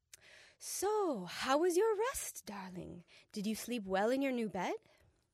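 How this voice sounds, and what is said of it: Clumsy foreign accent, British-like. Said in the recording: “I am horrible with accents. I should be good because I live there. But when it comes out, it's usually something between like a British accent or like Japanese.”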